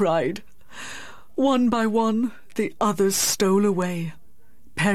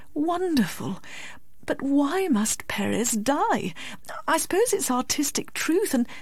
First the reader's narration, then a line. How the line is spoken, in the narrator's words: murmured Miss Medhurst